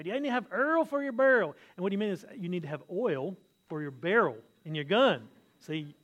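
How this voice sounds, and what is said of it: Deep southern accent. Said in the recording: “this guy had a very deep southern accent”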